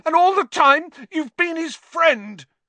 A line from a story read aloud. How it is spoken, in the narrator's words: he shouted at Lupin, his voice wavering out of control